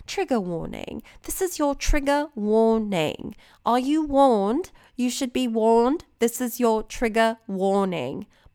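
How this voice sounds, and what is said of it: Put-on British accent. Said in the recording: “Maybe I'll do it in my British accent.”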